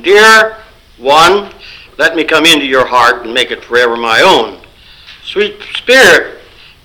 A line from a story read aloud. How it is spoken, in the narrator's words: cried